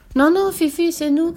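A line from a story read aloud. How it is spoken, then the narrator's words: Shouting. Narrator (French): cria Annika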